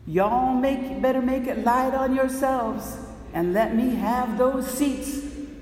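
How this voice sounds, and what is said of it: Put-on Southern accent, not great. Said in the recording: “How's my southern accent? Not great.”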